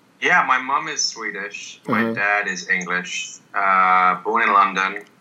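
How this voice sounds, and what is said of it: Speaks with a non-American accent. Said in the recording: “you have an accent”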